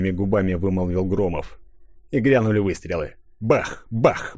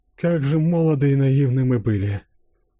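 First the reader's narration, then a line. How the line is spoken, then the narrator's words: Sighing. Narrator (Russian): Вздохнула Моника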